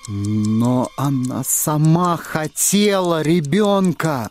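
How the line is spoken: Forced out reluctantly. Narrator (Russian): выдавил наконец Торн

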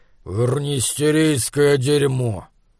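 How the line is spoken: Grumbling while walking away. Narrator (Russian): он проворчал, уходя

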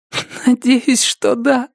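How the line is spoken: Sobbing. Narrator (Russian): всхлипнула Рози

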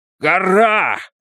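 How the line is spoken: Shout. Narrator (Russian): закричал Изгримнур

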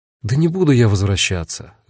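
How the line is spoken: Sighing. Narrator (Russian): вздохнул я

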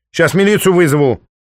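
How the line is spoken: Old woman shouting. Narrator (Russian): выкрикнула бабка

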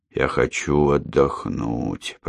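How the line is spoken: Wheezing. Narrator (Russian): просипел он

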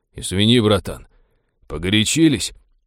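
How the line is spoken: Muttered, mage. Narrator (Russian): пробормотал маг

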